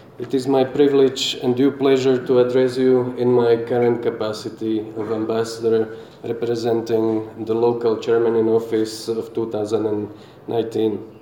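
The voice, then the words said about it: Unusually husky, sick-sounding voice. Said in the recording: “I am a bit corrupted by the flu, I hope you will pardon my voice, which is unusually, I would call it sexy today”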